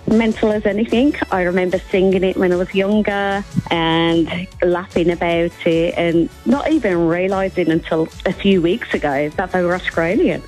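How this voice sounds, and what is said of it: British accent, not Australian. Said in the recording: “your accent isn't Australian and you're from the UK”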